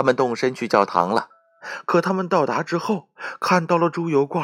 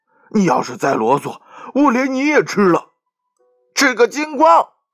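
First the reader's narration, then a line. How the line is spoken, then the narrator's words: Cat yelling. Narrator (Chinese): 猫嚷道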